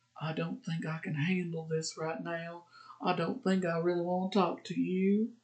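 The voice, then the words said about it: Weak put-on Southern US accent. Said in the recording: “my southern accent sucks”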